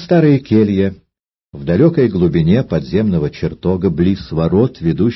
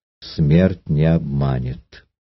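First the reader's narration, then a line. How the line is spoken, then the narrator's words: Quiet repetition. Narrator (Russian): Афра тихо повторила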